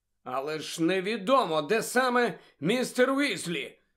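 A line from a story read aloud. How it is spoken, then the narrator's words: Exclaimed. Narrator (Ukrainian): вигукнув Гаррі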